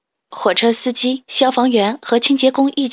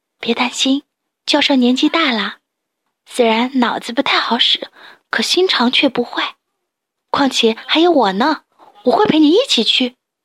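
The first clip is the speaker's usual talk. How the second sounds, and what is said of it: Soft whispered voice. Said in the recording (Chinese): “小声”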